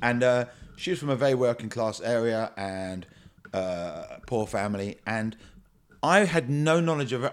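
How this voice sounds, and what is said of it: Educated Australian accent. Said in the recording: “you are aware my accent is educated Australian”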